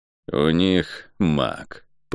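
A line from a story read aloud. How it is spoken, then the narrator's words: Through gritted teeth. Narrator (Russian): процедил Кальн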